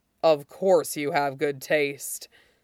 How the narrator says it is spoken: Ming Chui agrees, swallowing thickly

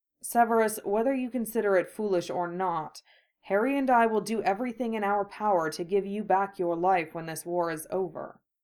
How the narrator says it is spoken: Remus said quietly

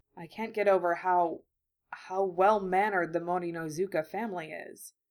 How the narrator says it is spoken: he murmured

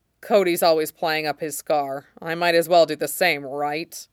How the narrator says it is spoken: Anakin snorts

